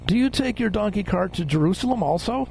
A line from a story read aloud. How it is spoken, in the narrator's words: some settlers in traffic taunted him, saying